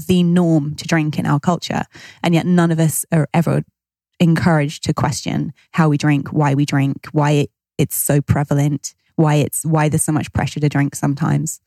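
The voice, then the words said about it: British accent. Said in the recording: “as you're speaking and I'm listening to your accent, I'm thinking back to a lot of time that I spent in the UK”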